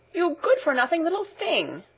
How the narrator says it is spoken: exclaimed Data angrily

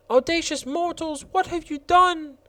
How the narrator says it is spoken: an expression of resentment and anger, and one of the roses cried aloud

